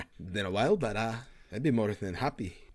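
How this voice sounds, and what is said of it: Character voice with inconsistent accent. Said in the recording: “his accent is really all over the place... I truly love his accent... It's all over the place.”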